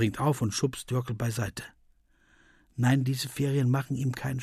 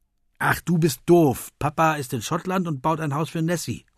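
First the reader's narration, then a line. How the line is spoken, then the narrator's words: Calling out. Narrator (German): ruft Finn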